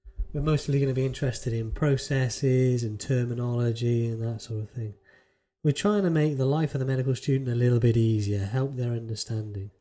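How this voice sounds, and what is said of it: Polished radio announcer voice. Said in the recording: “You put on your radio voice again.”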